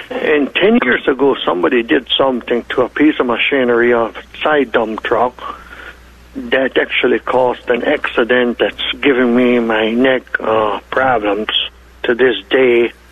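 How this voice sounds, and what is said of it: German, Russian, Ukrainian, Hutterite accent. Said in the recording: “due to my German, Russian, Ukraine, and Hutterish accent, you might have a problem understanding me”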